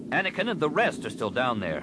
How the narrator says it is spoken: Solasar snapped

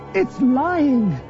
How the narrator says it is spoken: Leia cried

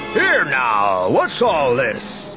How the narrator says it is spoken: bellowed a voice

